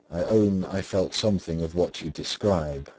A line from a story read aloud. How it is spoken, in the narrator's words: said Mr